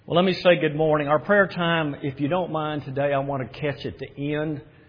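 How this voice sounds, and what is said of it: South Scottish accent. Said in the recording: “I am from Scotland, but I'm from South Scotland... this accent.”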